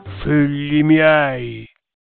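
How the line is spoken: Grave voice. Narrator (Italian): disse con voce grave

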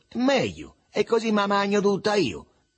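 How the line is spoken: Shouted. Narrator (Italian): gridò il Begalo

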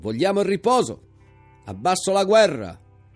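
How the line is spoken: Crowd shouting. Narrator (Italian): le grida

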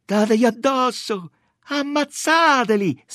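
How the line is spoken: Distant shrieking. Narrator (Italian): strillavano quelle che erano ancora più lontane

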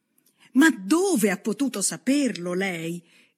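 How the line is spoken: Woman's exclamation. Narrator (Italian): esclamò Miss Bates

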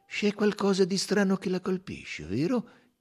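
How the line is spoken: Gentle question. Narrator (Italian): chiese l'investigatore in tono gentile

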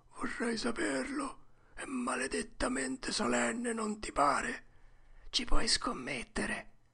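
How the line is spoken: Whispered. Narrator (Italian): Huckleberry bisbigliò

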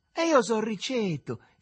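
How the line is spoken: Revealing exclamation. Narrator (Italian): esclamò il Riccetto, con l'aria di fare una rivelazione

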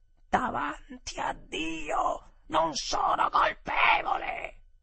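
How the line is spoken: Terrible shout. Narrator (Italian): mia moglie, tutta ad un tratto, gridò con una voce terribile

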